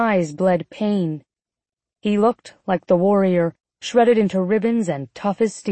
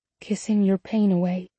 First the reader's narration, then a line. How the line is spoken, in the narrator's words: I whispered